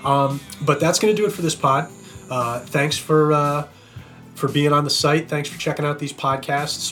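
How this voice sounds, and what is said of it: Hoarse, fading voice. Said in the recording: “you can see I'm losing my voice a little bit right now”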